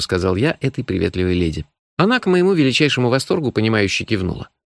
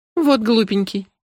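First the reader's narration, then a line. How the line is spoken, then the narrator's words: Laughing. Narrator (Russian): рассмеялась она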